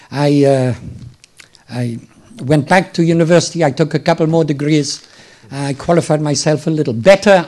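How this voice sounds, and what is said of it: Slightly hoarse voice, mixed accent. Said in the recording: “my accent is a funny mixture, and I think I have a slight cold coming on, so there's a little hoarseness”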